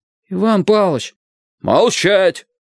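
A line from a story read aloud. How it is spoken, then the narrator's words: Shouting. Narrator (Russian): Выкатив глаза, Кораблев кричал на меня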